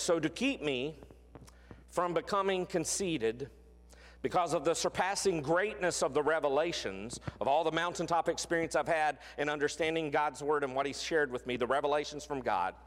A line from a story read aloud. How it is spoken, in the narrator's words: he says